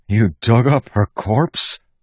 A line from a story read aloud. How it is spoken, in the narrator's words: Wax asked in a pleading voice